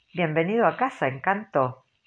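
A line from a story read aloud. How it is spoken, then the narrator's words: Laughing. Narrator (Spanish): Dick se rió y le dijo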